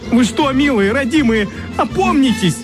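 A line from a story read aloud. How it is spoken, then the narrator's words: Loud wailing. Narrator (Russian): Сладкий гусь вопил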